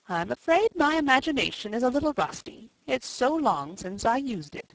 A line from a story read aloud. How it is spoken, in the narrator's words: she said